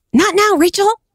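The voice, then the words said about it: Impression of Monica from Friends. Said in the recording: “my Monica impression”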